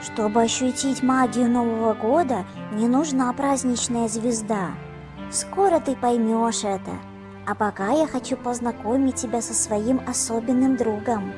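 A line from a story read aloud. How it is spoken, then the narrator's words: Plain. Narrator (Russian): сказал Мишка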